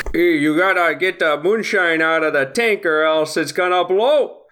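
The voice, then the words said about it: Put-on Cajun, Fargo-like accent, not convincing. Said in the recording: “Canadian Cajun. ... Like a Fargo, yeah, Fargo accent. ... it's not going great”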